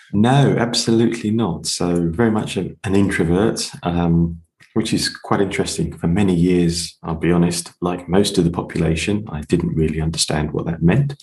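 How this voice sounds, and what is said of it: English accent. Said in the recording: “an person with an English accent, so no American”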